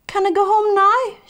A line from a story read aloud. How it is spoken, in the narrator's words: begged